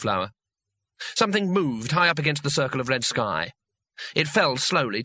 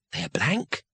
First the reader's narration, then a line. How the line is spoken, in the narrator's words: whispered